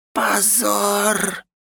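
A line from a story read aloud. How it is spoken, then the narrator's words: Squeaky mouse-like moan. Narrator (Russian): простонал по-мышиному Один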